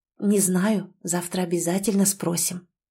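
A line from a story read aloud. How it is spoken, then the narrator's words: Whisper. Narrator (Russian): прошептала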